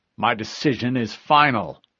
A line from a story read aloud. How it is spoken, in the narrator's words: Silva growled